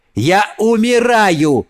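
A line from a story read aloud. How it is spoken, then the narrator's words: Shouted. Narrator (Russian): крикнул он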